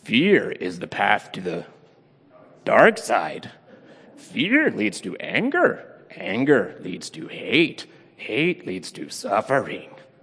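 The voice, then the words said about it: Yoda character voice. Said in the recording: “that may be the very first Yoda impersonation ever in church”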